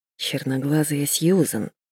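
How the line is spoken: Mumbled. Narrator (Russian): пробормотала я

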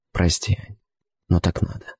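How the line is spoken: Whispering. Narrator (Russian): шепнул

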